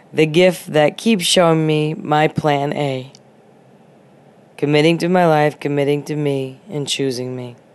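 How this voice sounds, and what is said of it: Voice affected by a cold. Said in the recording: “you can hear it in my voice that I'm still getting over the gift that keeps on giving”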